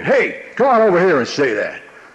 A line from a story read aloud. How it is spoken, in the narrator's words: he'd be yelling at these other groups of guys, saying